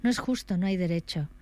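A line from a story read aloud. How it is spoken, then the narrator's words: Kept exclaiming. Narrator (Spanish): siguió exclamando la señora Hutchinson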